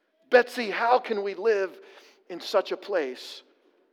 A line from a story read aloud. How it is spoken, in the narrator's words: Corrie asked